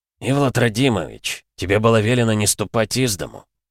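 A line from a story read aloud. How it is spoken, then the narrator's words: Through clenched teeth. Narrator (Russian): проговорил Вьюга сквозь зубы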